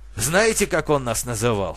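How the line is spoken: Sighing. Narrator (Russian): вздохнул Артур

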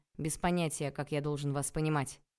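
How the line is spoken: Sharp reply. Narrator (Russian): резко ответил

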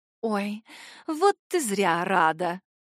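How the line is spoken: Purring voice. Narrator (Russian): мурлыканье Найлы

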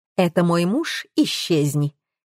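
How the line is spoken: Calm speech. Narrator (Russian): спокойно говорила

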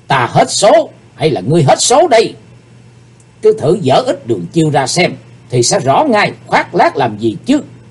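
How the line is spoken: Hateful murderous shout. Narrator (Vietnamese): Sát khí bốc ngục lên trên gương mặt của Chí Tôn, chàng căm hận hét

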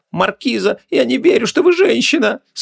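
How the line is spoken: Tearful exclamation. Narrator (Russian): сквозь слезы воскликнула Гвиниола

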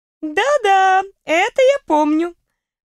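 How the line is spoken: Laughing. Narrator (Russian): Почему-то рассмеялась она

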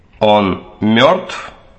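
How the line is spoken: Creaky voice, too loud. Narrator (Russian): Скрипучий голос вампира прозвучал слишком громко для заполнившей улицу тишины

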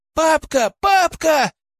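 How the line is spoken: Shouting. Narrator (Russian): кричала Агата

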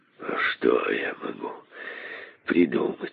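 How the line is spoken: Muttering king. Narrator (Russian): бормотал король

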